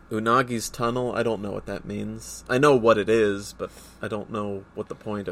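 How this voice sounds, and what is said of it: Usual voice. Nothing is said of it.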